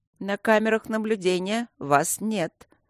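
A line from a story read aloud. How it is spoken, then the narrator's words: Gloomy old man. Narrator (Russian): мрачно сказал старый безопасник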